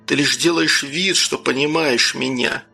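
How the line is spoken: Calm reply. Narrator (Russian): спокойно ответил я

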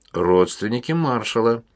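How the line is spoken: Gloomy. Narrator (Russian): мрачно ответил за брата Уильям

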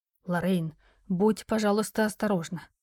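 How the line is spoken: Worried whisper near ear. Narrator (Russian): раздался над ухом встревоженный шепот Джеральда

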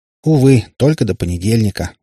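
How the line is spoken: Sighing. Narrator (Russian): вздохнул Котов

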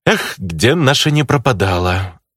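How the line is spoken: Sighing. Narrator (Russian): Вздохнул я

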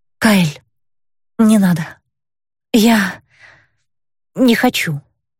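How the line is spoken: Breathless, forced out. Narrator (Russian): с трудом дыша выдавила я

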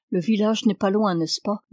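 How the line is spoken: Plain. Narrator (French): demanda

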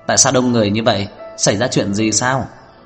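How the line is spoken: Hearty laughing voice. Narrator (Vietnamese): tiếng cười sang sảng nói

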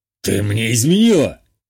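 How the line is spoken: Growled. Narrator (Russian): рыкнул

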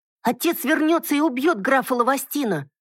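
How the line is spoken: Sudden confident shout, youngest boy. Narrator (Russian): вдруг выкрикнул самый младший, уверенно заявил

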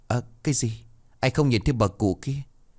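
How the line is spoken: Sudden stammer. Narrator (Vietnamese): Bà Triệu bất ngờ lắp bắp

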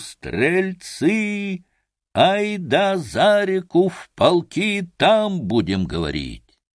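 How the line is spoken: Straining shout. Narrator (Russian): Тараруй, надсаживаясь, крикнул

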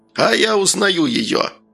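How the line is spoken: Joyful shout. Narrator (Russian): радостно закричал Мыр

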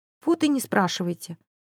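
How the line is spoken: Sighing. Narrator (Russian): вздохнул родственник провинившихся студентов

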